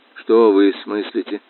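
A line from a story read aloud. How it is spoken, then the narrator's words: Very quiet. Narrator (Russian): говорил очень тихо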